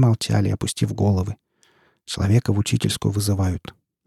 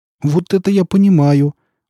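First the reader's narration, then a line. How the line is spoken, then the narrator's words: Exclamation. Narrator (Russian): воскликнул Колька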